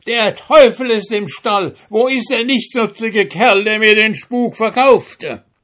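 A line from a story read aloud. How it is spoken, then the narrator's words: Terrified miller shouting. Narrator (German): Voll Entsetzen der Müller schrie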